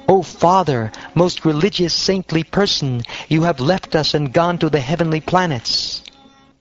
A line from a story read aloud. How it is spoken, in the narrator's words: Virtually bewildered by grief, anger, indignation, affliction, and lamentation, the sons of Jamadagni cried